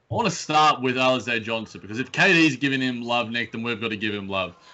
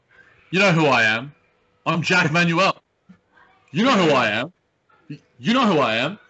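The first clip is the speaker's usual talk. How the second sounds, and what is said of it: Imitates another person's voice. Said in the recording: “with his Kevin Durant impression.”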